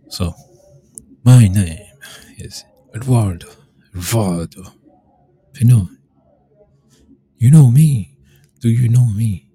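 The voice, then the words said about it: Put-on character accent. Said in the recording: “I'll say it with the accent. I'll do it. Because that's part of the character.”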